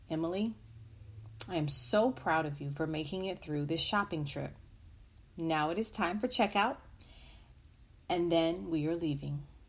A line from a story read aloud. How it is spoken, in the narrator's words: The mother calmly said